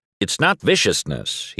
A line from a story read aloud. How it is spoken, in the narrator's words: he corrects me, his voice suddenly stern